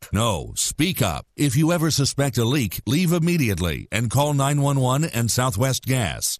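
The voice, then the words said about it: Deep-voiced narrator voice. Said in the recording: “Deep Voice Narrator”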